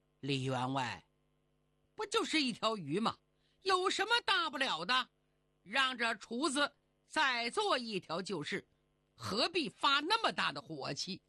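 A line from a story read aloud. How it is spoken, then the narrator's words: Cold. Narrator (Chinese): 冷冷地说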